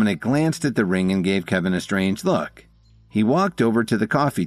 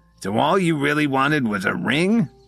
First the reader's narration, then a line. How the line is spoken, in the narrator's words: Dominic said with a sneer